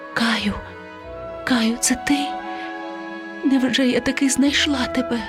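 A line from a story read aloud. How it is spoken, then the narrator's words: Whispered. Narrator (Ukrainian): вона прошепотіла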